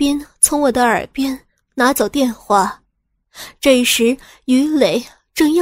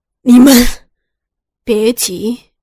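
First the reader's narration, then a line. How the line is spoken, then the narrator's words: Angry roar. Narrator (Chinese): 孙伟 怒吼了一声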